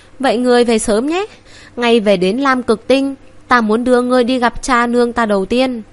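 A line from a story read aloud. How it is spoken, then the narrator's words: Smiling. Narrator (Vietnamese): Vân Triệt mỉm cười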